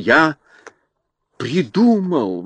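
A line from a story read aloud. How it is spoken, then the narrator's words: Exclaiming. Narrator (Russian): воскликнул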